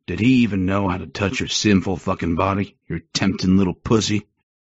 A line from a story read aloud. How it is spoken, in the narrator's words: He growled close to my mouth